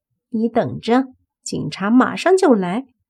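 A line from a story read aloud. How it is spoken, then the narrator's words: Sneering. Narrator (Chinese): 冷笑着看着莫凡说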